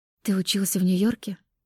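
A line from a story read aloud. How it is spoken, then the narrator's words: Quiet question. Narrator (Russian): тихо спросила Кристина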